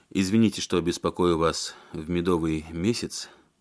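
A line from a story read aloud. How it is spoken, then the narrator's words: Mumbled. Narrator (Russian): промямлил он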